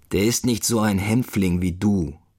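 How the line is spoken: Growled. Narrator (German): knurrt

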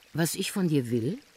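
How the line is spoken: Plain. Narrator (German): sagte er dann

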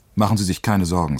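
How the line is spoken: Plain. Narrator (German): sagte er

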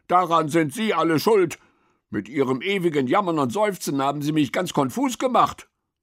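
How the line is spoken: Called out. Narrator (German): rief

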